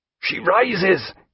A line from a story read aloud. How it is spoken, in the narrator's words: he said in a gasping croak